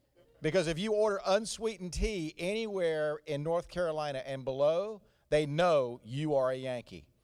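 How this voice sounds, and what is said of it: Slow Southern US drawl. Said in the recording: “You can tell from this very slow-cooked accent that I did not get this in the Washington, D.C. area. This came from 45 years of living in North Carolina.”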